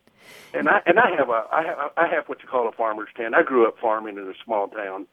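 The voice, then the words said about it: Rural American redneck accent. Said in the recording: “they say that I sound redneck because the way I my accent”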